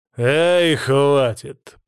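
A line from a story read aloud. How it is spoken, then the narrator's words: Grumble. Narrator (Russian): проворчал Свари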